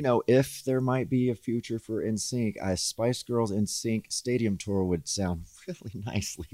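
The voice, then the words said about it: Southern American accent. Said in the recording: “what I'm really liking about you? Is your accent ... my Southern accent's coming out ... It comes out ... It's so nice”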